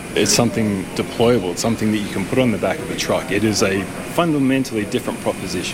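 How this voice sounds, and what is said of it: Australian accent. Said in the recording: “has an Australian accent”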